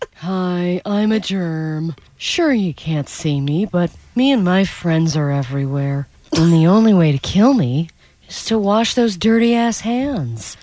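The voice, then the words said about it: Cartoonish germ character voice. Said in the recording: “doing the voice of a germ ... I made a couple of character choices there.”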